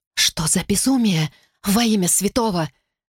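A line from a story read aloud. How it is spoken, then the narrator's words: Whisper. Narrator (Russian): прошептала Флорел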